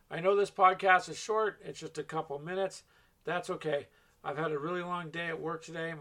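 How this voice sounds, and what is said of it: Strained, worn-out voice. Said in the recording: “My voice is killing me, if you can't tell.”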